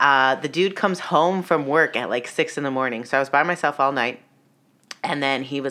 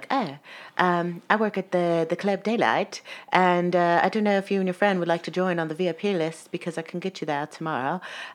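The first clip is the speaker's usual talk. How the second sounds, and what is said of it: Put-on foreign accent. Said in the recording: “with his accent ... Don't make fun of my accent. That's as good as I can do.”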